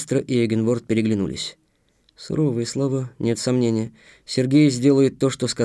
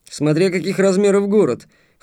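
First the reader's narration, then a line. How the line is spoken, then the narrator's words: Snorting. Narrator (Russian): хмыкнул Толик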